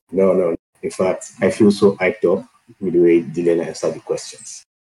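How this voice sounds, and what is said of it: Nigerian English accent. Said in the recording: “I'm detecting your accent... I recognize the Nigerian accent.”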